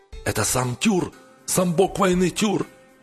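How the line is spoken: Frightened shouting crowd. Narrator (Russian): кричали дружинники хундингов, в страхе

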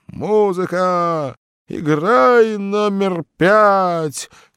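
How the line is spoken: Fading shout from afar. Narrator (Russian): кричал угасающим голосом из буфета человек, похожий на утопленника

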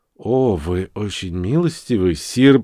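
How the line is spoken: Whispered. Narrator (Russian): прошептал я в ответ

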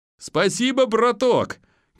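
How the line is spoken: Shouted. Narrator (Russian): крикнул ПП

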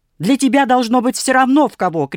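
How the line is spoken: Shout. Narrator (Russian): крикнула Софья Петровна

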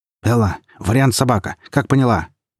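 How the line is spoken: Shouted into radio. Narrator (Russian): выкрикнул в тангенту

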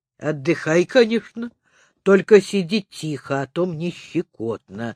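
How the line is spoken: Hoarse bass voice. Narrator (Russian): хриплым басом сказал Пупс

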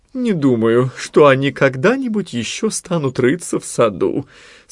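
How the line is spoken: Sleepy mumble. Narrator (Russian): сонно бормотала Нани

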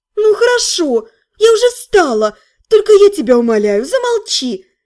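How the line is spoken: Pleading. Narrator (Russian): взмолилась я

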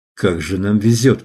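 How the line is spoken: Mumbled. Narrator (Russian): пробормотал Том

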